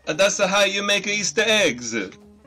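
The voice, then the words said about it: Bad imitated Italian accent. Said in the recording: “A bad accent”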